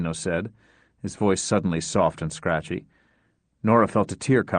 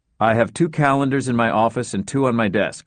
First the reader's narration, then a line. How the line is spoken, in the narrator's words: Luther said